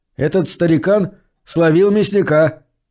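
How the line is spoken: Loud boy. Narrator (Russian): громко произнес какой-то мальчишка

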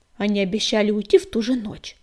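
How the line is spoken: Defiant grumble. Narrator (Russian): буркнула Пепелюшка, вызывающе

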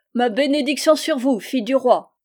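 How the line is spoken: Exclaimed. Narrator (French): s'écria

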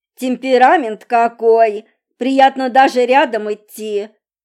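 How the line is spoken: Uncle grumbling. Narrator (Russian): Пробурчал дядя

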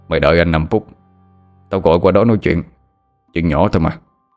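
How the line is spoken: Deep gruff man, smirking. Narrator (Vietnamese): Cái giọng ồm ồm của người đàn ông đầu dây bên kia cười nhếch mép rồi nói

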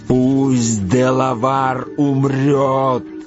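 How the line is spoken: Thunderous voice. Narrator (Russian): громовым голосом проговорил Магуа

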